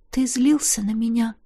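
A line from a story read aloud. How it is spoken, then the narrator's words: Quiet question. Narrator (Russian): тихонько спросила я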